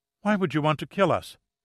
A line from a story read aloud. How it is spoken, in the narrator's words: She asked, her voice shaking